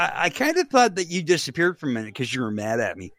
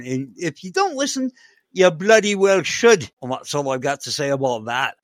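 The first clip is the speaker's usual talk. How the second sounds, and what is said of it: Bad fake accent. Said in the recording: “That's a terrible accent ... that was a bogus fake accent. It wasn't a real one.”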